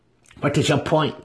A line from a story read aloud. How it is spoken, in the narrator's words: Brisa asked sharply